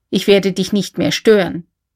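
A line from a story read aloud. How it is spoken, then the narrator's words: Plain. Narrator (German): sagte K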